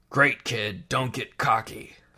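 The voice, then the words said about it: Han Solo character impression. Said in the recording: “my Han Solo impression.”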